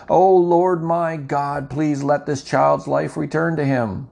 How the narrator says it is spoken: cried out to the Lord

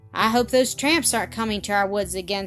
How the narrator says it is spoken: said Mr

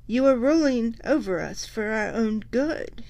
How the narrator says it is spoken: he said feebly

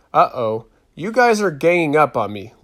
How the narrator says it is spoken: laughed Ximena

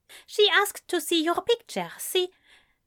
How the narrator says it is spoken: She squealed

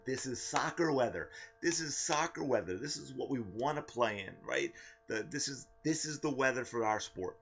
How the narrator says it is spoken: in my happiest, most cheerful voice, I would always exclaim

